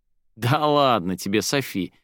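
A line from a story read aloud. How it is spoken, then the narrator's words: Laughing. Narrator (Russian): вновь засмеялся он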